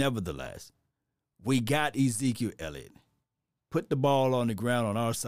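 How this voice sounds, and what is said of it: Usual voice. Nothing is said of it.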